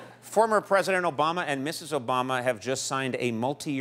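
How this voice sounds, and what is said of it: Usual voice. Nothing is said of it.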